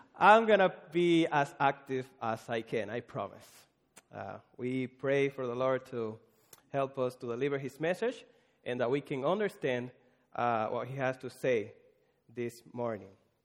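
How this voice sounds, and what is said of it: Caribbean accent. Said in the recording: “this Caribbean pastor with a weird accent”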